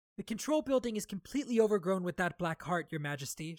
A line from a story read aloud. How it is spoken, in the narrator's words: Shallan said